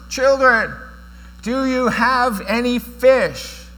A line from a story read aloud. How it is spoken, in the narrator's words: He shouted out to us